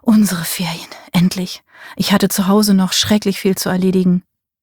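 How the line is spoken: Murmuring in ear. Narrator (German): Er murmelte in ihr Ohr

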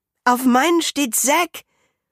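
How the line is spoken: Surprised call. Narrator (German): ruft überrascht

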